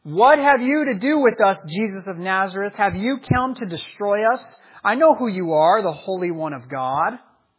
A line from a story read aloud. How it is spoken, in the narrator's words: And he cried out